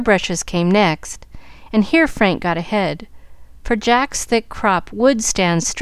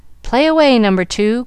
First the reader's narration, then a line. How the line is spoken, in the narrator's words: called out Frank